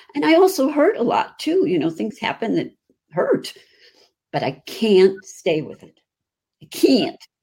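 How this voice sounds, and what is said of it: Chicago accent. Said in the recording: “That's my Chicago accent.”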